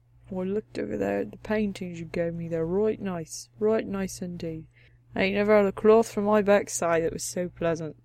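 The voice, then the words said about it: Put-on rustic dialect accent. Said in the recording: “She's doing accents. ... I like these accents. They're nice.”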